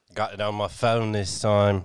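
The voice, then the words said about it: Put-on accent. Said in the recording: “Why are you using an accent?”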